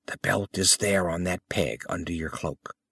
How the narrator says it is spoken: Thanis whispered

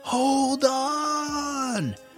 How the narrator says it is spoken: yelled Abigail

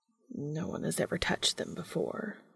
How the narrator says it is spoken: Cass mumbles

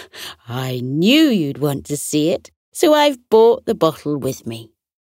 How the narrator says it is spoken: Auntie Shirley chuckled and said

